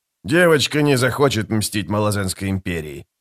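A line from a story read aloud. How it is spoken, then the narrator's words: Growled. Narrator (Russian): зарычал сапер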